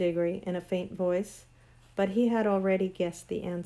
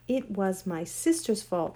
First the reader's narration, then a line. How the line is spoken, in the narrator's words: said the queen